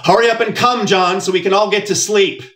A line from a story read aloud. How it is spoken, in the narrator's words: my mother shouted through the thin wall